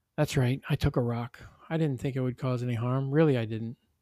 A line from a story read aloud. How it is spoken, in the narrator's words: Sammy pleaded